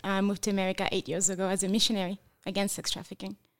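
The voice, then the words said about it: French accent. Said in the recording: “But I detect an accent. ... Yes, I'm from France.”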